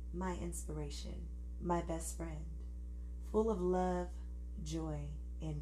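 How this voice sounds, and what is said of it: Smooth, honeyed imitation voice. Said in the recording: “I'm giving him this voice, because Russell Wilson got it's not zesty, but he got some honey to him that's like smooth”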